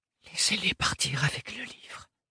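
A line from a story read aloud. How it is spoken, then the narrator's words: Whispered. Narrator (French): chuchota-t-elle au vent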